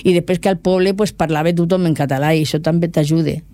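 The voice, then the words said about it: Catalan with a Murcian accent. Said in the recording (Catalan): “parlo un català amb accent murcià, però de Lleida. Sembla que soc valenciana.”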